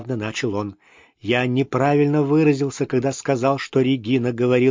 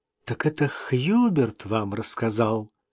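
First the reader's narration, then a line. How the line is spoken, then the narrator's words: Quiet question. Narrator (Russian): тихо переспросила Джейн Клаузен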